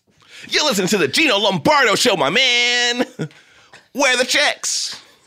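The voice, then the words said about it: Classic radio DJ voice. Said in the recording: “that voice you were doing ... my classic radio show ... I used to do that voice. I used to host a show on Hot 97.”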